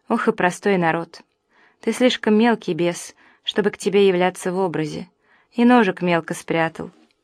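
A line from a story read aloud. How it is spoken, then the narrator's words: Sighing devil. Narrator (Russian): князь тьмы вздохнул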